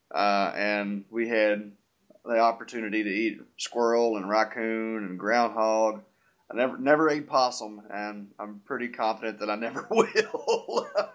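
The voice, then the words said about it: Rural country accent. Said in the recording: “I grew up in the country, as most people can discern from my accent”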